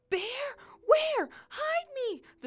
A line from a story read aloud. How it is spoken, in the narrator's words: the thing yelled back